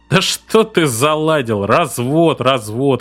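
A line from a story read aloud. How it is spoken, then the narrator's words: Laughing. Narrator (Russian): рассмеялся Дебнер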